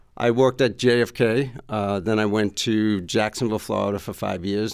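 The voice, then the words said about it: New York accent. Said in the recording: “the New York accent”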